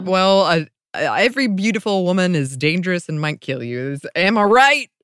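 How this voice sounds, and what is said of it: Sarcastic delivery. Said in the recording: “I'm being sarcastic.”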